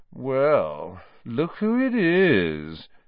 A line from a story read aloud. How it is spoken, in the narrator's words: said Malfoy, in his usual lazy drawl